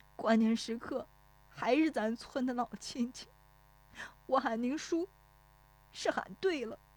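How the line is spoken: Tearful, on the verge of crying. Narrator (Chinese): 石有福顿时觉得一汪热泪涌出来，带着哭腔说

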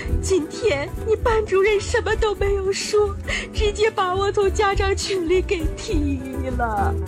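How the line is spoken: Angry, tearful. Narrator (Chinese): 老妈听完更生气了，哭着说道

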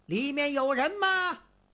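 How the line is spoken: Loud shout. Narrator (Chinese): 外边有人高声喊道

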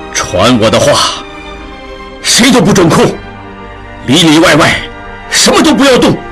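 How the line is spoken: Low grave voice. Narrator (Chinese): 曹掌柜沉声道

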